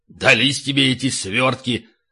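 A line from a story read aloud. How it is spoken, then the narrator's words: Sudden grumble. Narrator (Russian): проворчал вдруг Ставридес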